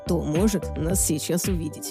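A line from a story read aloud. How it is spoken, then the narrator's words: Soft laugh. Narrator (Russian): тихо рассмеялся он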